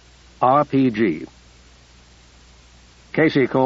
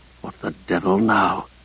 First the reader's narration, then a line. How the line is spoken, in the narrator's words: Ruddy, distracted by the violence, muttered